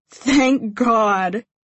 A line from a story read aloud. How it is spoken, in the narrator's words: I wheeze out, still hee-hawing at her